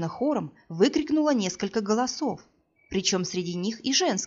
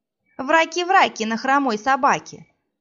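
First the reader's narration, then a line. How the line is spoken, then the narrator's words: Nasty mocking recitation. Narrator (Russian): противным голосом продекламировала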